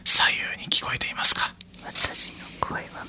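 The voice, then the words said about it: Whispering softly. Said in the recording (Japanese): “ちょっと囁いてみるっていうのをやりますね”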